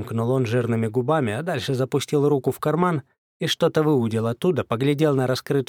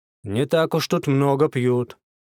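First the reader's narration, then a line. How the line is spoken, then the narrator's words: Displeased grumbling. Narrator (Russian): пробурчал сержант, недовольно хмыкнув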